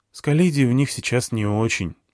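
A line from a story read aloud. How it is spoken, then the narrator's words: Sighing. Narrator (Russian): вздохнул Дмитрий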